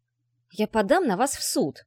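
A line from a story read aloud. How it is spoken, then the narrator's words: Hissing. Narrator (Russian): зашипел папарацци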